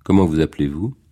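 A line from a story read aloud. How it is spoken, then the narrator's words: Cold question. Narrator (French): demanda froidement Margot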